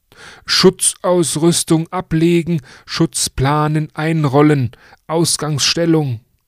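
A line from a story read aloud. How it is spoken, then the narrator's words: Called out. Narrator (German): ruft er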